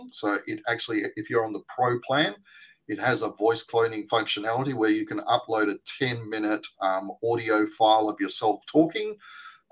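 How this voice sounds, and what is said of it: Australian accent. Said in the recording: “my Australian accent ... So if you're not an American”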